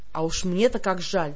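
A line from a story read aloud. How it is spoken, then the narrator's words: Grumbled to herself. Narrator (Russian): проворчала я про себя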